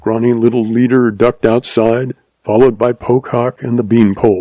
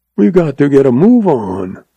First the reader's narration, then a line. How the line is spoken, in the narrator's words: rasped Cuchillo